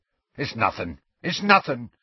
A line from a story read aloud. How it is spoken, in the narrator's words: said Hagrid hastily